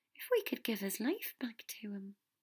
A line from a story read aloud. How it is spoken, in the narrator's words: she said softly